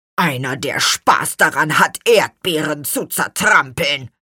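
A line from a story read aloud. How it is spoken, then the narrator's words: Growling. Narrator (German): knurrte Gurkenhut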